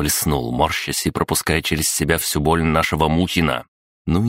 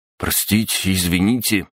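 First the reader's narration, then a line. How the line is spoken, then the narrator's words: Guilty babbling. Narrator (Russian): пролепетал он, видя, что делов натворил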